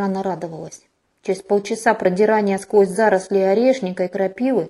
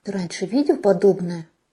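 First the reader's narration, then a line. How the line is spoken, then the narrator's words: Hoarse. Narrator (Russian): хрипло откликнулась я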